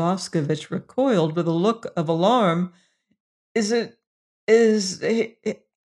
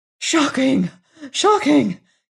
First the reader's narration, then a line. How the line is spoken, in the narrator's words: gasped Boscovich